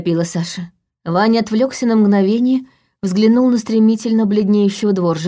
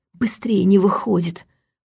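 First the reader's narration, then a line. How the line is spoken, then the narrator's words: Growled. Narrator (Russian): прорычал он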